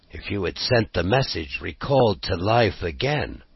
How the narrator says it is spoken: muttered

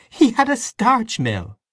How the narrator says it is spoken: said Aunt Kate, laughing

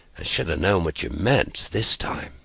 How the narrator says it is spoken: muttered Jerry

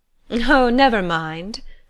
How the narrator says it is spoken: laughed Madame Ratignolle

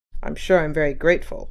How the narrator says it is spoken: muttered Mr

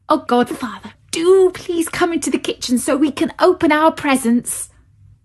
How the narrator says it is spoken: begged Clara

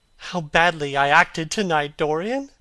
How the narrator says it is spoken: cried

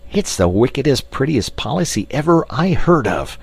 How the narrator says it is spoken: cried in their exultation

